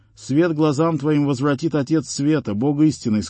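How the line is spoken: Plain, saint. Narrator (Russian): сказал ему святой

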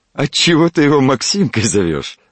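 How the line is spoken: Laughing. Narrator (Russian): рассмеялся доктор

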